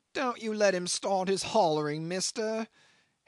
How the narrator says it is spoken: hailed from afar the accident case in a distressed, angry shout that came ringing between the walls like a quavering call down a tunnel

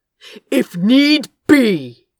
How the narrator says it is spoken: Gabriel spat

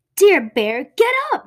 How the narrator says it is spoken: Mouse shouts in his ear

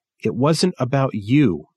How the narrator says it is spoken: Trip said

